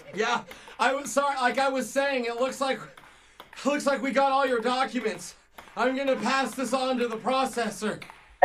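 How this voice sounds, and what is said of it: Sounds out of breath. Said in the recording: “you kind of sound out of breath.”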